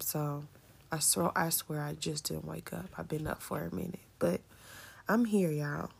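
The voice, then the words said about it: Slightly harsh, hoarse voice. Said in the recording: “Excuse my voice is a little harsh because I was praying and crying at the same time”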